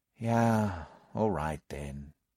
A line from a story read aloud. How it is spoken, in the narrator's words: I said with a sigh